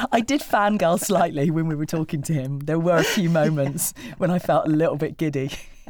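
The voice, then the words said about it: Lower-pitched, under-the-weather voice. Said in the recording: “I'm a little bit under the weather, and if my voice has dropped by a couple of tones... fighting off some sort of bugs, germs... your bog standard summer cold”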